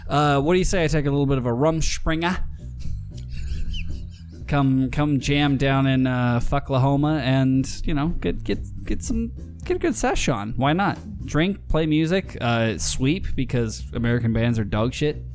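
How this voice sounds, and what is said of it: Put-on Glasgow Scottish accent. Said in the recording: “I'm coming from Glasgow. You can tell by my accent.”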